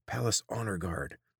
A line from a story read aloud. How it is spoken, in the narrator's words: the man whispered